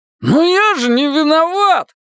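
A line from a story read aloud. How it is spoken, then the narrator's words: Howling. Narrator (Russian): взвыл Зигги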